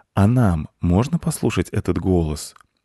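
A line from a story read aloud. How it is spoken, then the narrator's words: Soft question. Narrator (Russian): мягко спросил Майкл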